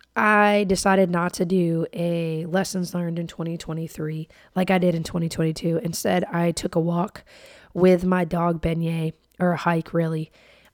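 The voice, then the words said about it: Voice sounds rough and unwell. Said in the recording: “I'm sorry my voice sounds horrible”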